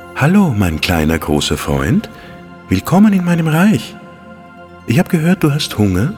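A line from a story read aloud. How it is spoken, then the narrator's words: Fairy, gentle voice. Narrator (German): sagte die Fee mit sanfter Stimme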